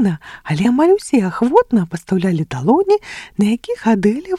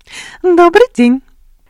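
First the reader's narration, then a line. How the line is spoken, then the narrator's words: Pleasant smiling greeting. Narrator (Belarusian): Прыемна усміхнулася яна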